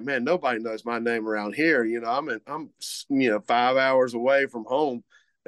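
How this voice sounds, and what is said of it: Imitated Cajun accent with slur. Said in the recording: “I'm trying to emulate his accent ... he has a big Cajun slur”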